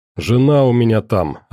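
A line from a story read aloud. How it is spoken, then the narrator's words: Plain. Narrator (Russian): ответил Миша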